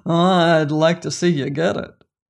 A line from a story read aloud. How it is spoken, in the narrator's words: replied the general, laughing maliciously